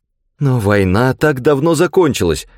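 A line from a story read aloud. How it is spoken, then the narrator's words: Exclaimed. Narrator (Russian): воскликнула Дэвис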